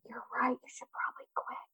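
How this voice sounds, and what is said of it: Whispered line. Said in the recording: “I whisper it, because that's like your whisper brain”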